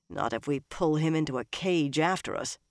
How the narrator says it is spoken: Nynaeve muttered

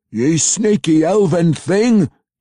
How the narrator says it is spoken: he roared

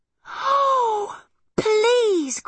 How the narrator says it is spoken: cried Arietti excitedly

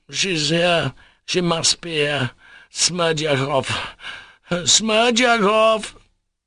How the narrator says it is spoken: The old man wheezed scarcely audibly

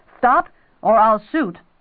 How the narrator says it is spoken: he heard the guard shout

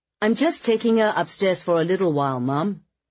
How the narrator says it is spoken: Charlie said in a slightly exasperated tone

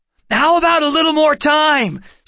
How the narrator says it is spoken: Seth called out

